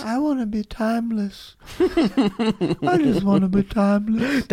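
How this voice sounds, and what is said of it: Very old, creaky character voice. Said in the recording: “the oldest voice ... You're just doing Voldemort from Harry Potter.”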